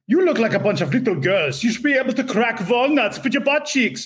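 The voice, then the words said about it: Hans and Franz style accent. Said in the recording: “he's got a Hans and Franz accent ... and have this weird laugh”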